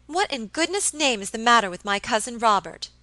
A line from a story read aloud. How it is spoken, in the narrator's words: exclaimed Miss Audley impatiently